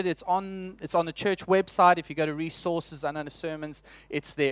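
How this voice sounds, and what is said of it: South African accent. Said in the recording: “what is that heavenly language he is speaking? And actually, it's just my South African accent”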